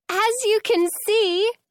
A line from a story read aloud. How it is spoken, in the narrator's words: Franny shouts over the music